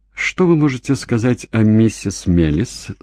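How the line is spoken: Plain. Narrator (Russian): спросил он

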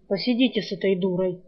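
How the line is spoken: Grumbled. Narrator (Russian): буркнул

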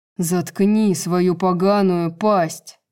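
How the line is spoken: Growled. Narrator (Russian): прорычал Итан

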